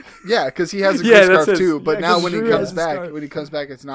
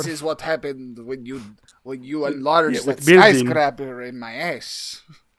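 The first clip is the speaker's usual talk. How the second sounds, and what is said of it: Put-on accent, well done. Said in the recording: “Is my accent good? ... Oh, perfect.”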